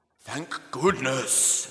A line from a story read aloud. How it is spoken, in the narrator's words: exclaimed Caspar